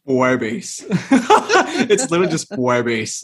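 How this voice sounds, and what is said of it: Duolingo guy accent, sudden pitch drop. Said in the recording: “I put on my best Duolingo guy accent and said Puebes ... there's like the sudden drop”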